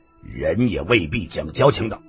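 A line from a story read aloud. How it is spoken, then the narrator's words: Cold tone. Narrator (Chinese): 白毛张三冷冷地说道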